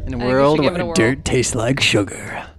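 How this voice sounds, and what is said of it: Movie trailer announcer voice. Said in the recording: “That's my best announcer voice.”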